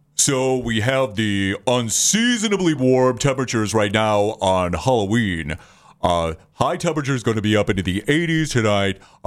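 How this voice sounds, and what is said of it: Impression of Dick Goddard. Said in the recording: “my Dick Goddard impersonation”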